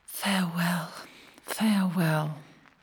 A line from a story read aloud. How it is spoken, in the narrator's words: whispered